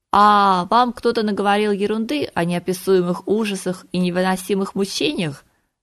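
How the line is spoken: Laughing. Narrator (Russian): рассмеялась

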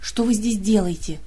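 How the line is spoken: Hissed. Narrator (Russian): зашипела она

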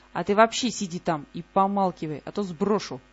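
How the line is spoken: Snapping retort, centaur. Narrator (Russian): огрызнулся кентавр

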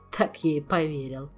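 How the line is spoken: Laughing. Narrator (Russian): засмеялся Шелар

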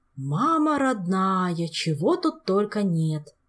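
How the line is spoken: Drawl. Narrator (Russian): протянул он

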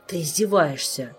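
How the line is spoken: Grumbling. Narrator (Russian): проворчал Толик

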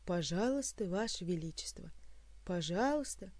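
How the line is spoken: Sighing. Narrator (Russian): вздохнул придворный маг

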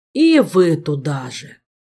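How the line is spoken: Exhausted moan. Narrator (Russian): Измученно простонал Витька

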